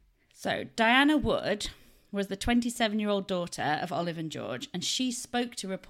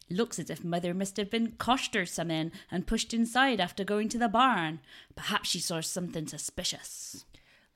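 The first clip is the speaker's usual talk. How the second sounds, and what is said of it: Put-on West Country accent. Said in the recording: “I need to get my West Country accent out, don't I?”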